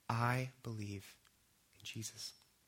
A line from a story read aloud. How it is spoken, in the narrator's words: So as quietly as I could, I said